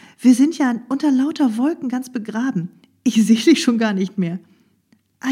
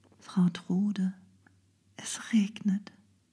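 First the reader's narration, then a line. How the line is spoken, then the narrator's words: Quiet. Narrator (German): sagte leise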